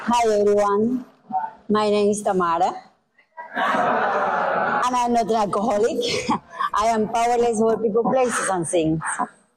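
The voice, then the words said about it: Cuban-accented English. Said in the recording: “I am from Cuba. You may be here from my accent”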